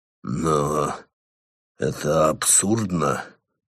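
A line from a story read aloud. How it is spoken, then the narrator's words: Breathed out. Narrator (Russian): выдохнул он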